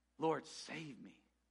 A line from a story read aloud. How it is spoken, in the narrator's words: beginning to sink, cried out